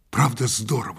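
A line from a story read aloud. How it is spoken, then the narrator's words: Whisper. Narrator (Russian): шепнул я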